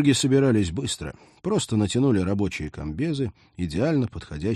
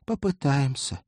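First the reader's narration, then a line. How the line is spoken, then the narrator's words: Sigh. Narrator (Russian): вздохнула Полина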